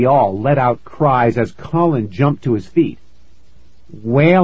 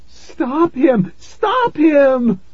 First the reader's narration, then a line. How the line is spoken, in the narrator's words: Mom screamed